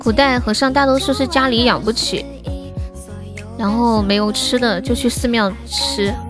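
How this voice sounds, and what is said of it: Quiet, strained soft voice. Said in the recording (Chinese): “现现在还是只能小声的讲话，不能不能很大声的讲话……喉咙还是有点，还是很痛，就是只要大声的讲话就会咳嗽”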